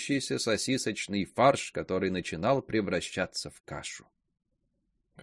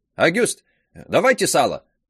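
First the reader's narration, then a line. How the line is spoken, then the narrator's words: Shout. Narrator (Russian): крикнул Киню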